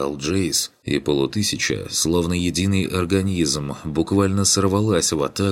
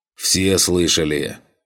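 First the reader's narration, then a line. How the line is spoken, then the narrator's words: Roar over channel. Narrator (Russian): проревел я в канал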